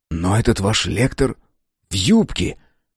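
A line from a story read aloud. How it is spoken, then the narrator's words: Puzzled whisper. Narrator (Russian): недоуменно прошептал Мэлори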